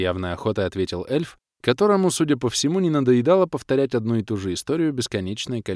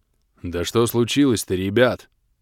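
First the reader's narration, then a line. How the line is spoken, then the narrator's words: Deep bass voice, dwarf. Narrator (Russian): пробасил подошедший гном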